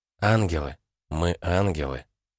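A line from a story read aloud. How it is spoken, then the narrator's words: Quiet reply. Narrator (Russian): тихо ответила эмпатка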